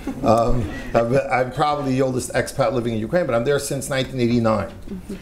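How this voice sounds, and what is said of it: American accent. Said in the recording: “I'm an American citizen, if anyone can tell from my accent.”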